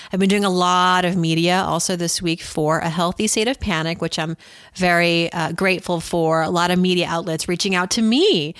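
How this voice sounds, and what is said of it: Slightly scratchy, sick-sounding voice. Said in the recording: “I caught something immediately... my voice is a little scratchy”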